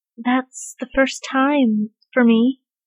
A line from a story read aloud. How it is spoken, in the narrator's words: Bradley murmured into Callum's lap